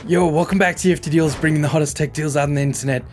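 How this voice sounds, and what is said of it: Hoarse, raspy sick voice. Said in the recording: “with no voice because that man is sick ... I sound like a pack a day kind of guy”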